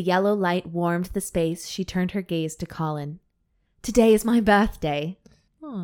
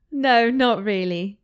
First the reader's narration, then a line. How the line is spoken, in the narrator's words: she giggled helplessly